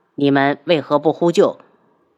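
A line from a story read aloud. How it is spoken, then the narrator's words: Cold, startled. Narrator (Chinese): 轩辕志一愣，冷声道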